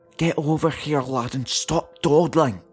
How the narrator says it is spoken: A furious whisper

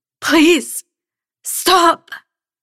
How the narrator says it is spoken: rasped

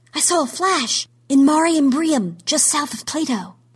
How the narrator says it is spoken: someone gasped, then said

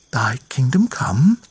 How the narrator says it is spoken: she continued, her voice but a whisper

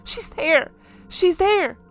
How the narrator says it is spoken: I cried out

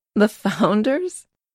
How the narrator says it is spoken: She laughed

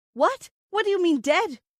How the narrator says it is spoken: My voice almost to hysteria

